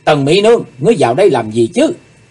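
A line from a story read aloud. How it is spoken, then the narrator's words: Dazed sudden shout. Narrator (Vietnamese): Chí Tôn cảm thấy như vừa hít xong một cuộn khói mê hồn, chàng bỗng hét lên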